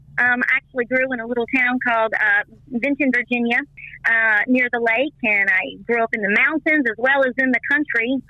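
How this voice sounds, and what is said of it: Country accent. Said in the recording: “People say I have a country accent.”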